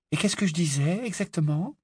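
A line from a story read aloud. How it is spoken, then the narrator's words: Skeptical, curious question. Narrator (French): interrogea Hermione d'un ton qui hésitait entre le scepticisme et la curiosité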